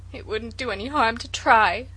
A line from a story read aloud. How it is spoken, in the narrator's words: sobbed Felicity